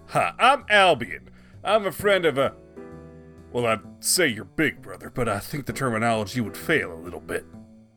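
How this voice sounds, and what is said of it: Oklahoma or Texas accent. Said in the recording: “my accent gives away the general region I'm from, but, I'm from Oklahoma. Though folks tell me my voice is from Texas.”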